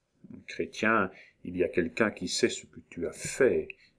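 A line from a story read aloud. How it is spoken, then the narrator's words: Said very softly. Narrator (French): dit tout bas Marguerite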